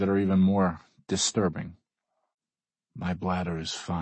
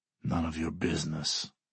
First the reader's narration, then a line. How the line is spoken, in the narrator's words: the Russian growls